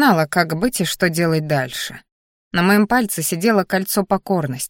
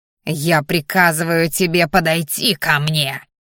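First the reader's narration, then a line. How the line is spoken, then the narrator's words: Growled. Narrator (Russian): рыкнул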